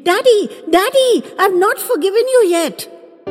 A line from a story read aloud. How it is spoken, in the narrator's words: as she squealed